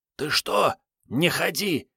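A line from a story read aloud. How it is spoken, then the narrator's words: Furious whisper. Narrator (Russian): яростно зашептал Вано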